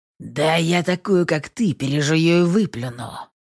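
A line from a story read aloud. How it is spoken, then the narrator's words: Through gritted teeth. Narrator (Russian): Сквозь зубы цедит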